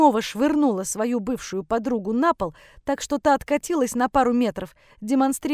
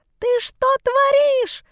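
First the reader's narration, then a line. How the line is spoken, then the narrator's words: Shrieked. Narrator (Russian): Завизжала Левина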